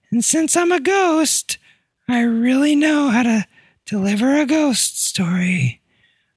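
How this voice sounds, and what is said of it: Spooky ghost voice. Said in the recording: “this accent... ghost accent”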